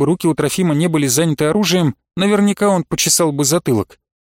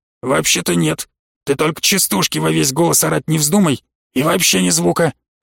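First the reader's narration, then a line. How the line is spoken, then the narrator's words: Hissing whisper. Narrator (Russian): Обратился он свистящим шепотом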